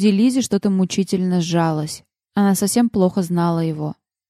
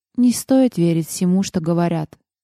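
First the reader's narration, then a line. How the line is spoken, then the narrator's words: Calm remark. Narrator (Russian): спокойно заметила Лиззи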